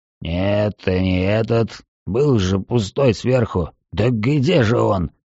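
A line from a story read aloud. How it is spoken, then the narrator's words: Muttering to himself. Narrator (Russian): Он бормотал себе под нос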